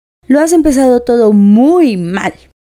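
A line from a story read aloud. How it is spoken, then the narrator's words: Exclaiming. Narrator (Spanish): exclamó Tweedledum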